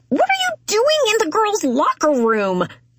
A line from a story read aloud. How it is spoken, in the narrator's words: I shriek again